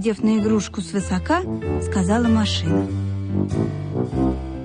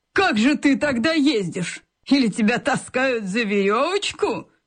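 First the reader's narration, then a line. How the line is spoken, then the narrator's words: Contemptuous snort. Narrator (Russian): Презрительно фыркнула машина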